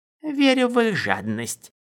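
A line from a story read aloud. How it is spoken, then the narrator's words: Approving grunt. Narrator (Russian): Дорин одобрительно хмыкнул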